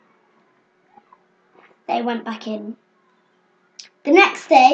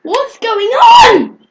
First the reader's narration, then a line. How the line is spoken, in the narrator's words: everybody screamed